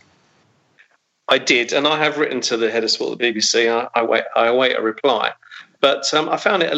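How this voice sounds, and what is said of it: Usual voice. Nothing is said of it.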